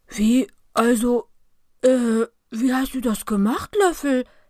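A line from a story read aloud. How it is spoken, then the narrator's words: Stammering. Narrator (German): stottert er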